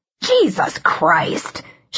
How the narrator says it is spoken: She hissed

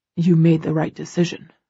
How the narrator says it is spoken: he says, his voice much cooler

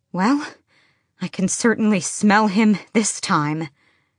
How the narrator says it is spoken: Selena said between panting breaths

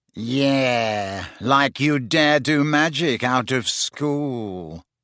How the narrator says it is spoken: sneered Malfoy

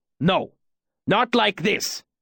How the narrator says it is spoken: Kilvin growled out a couple of words

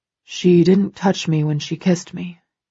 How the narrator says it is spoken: he murmurs

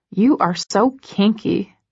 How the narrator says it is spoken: I mutter

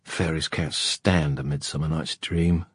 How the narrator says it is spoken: muttered Kieran

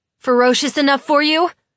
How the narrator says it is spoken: I shout at them

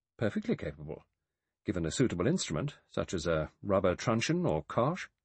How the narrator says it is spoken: The doctor said calmly

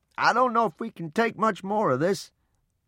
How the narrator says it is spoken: Papa shouted above the wind

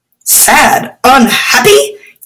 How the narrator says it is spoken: yelped Snooty Batu

